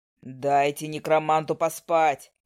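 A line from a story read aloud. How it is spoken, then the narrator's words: Barked. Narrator (Russian): рявкнул Гойд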